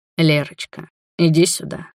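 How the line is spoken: Hoarse. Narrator (Russian): хрипло проговорил Роберт

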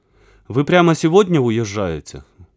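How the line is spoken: Sighing. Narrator (Russian): вздохнул Веня

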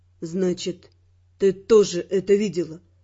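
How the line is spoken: Dull, muffled voice. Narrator (Russian): Глухо заключил он

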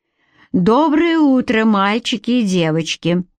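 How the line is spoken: Loud over noisy chatter. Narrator (Russian): произношу я довольно громко, чтобы перекричать бурный обмен мнениями

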